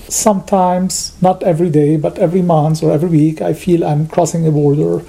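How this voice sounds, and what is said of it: Speaks with a non-native accent. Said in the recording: “I'm always reminded that I still have an accent.”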